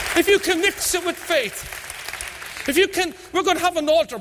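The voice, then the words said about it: Irish accent. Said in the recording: “Wouldn't it be wonderful if God sent an Irishman to you? ... It took most of me 15 minutes just to get accustomed to my accent.”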